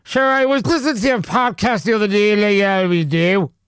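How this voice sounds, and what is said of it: Imitated Irish Dublin accent. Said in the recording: “He's Irish ... A Dublin accent”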